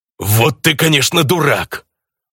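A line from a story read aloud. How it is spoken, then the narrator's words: Snarled. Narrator (Russian): Рыкнул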